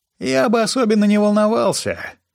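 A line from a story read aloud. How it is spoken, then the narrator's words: Surprisingly cheerful. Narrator (Russian): неожиданно бодрым голосом заявил Баррис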